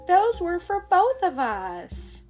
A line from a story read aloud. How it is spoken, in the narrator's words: Amber cries